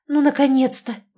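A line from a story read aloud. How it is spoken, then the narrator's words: Exhaled. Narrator (Russian): выдохнула Лёля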